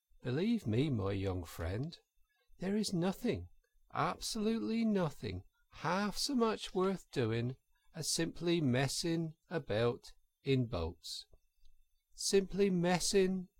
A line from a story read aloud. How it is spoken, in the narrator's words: went on dreamily